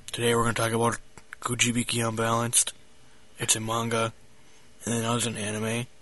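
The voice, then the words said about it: Flat monotone voice. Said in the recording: “He was like monotone ... boring”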